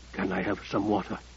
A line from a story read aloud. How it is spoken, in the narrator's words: He whispered